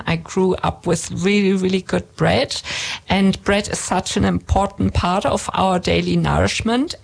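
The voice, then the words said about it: German accent. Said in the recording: “you can hear in my accent that I'm German”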